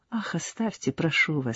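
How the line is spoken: Very tender voice. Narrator (Russian): сказала она нежнейшим голосом

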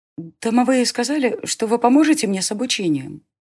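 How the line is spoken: Timid babbling. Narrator (Russian): пролепетала

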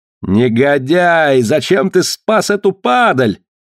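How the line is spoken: Furious yell. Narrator (Russian): завопил надсмотрщик

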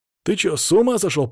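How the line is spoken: Hoarse wheeze. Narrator (Russian): прохрипел я

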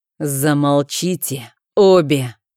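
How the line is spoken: Through gritted teeth. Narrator (Russian): процедил наконец герцог

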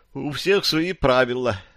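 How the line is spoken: Sigh. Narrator (Russian): вздохнул Фил

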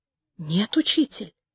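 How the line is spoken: Ashamed whisper. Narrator (Russian): прошептал Гет, сгорая от стыда

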